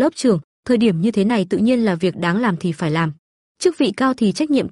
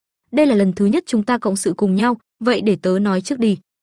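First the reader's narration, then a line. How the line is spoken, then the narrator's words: Smiling. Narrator (Vietnamese): Đường Vũ Lân mỉm cười nói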